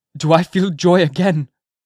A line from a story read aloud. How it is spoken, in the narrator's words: cried he, wondering at himself